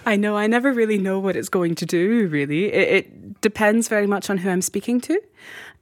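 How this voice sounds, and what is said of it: Mixed American-Scottish accent. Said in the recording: “I love your accent... It is somewhere between Colorado and Scotland... It has this Atlantic feel to it.”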